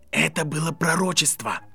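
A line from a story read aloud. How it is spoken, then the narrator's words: Hissed. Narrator (Russian): прошипел кто-то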